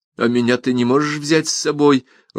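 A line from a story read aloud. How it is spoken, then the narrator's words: Timid question. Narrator (Russian): робко спросила Тереза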